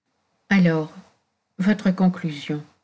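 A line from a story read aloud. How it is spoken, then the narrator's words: Murmuring. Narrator (French): murmura Jacques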